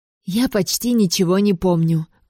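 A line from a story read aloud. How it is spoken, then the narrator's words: Loud whisper in ear. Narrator (Russian): громко шепнула я на ухо Брианне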